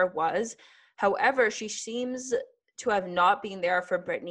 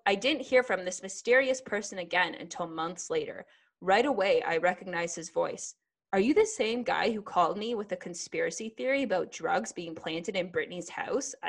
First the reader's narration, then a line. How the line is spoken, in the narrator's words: asked